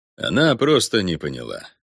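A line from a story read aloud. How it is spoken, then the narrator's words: Sighing. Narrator (Russian): вздохнул Ориго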